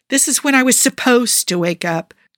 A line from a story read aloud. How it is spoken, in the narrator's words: Joe informs the owl mournfully